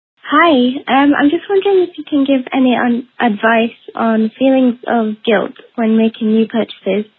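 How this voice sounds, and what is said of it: British accent. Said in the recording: “based on this accent, I think she's in New Jersey ... I think you're in the UK.”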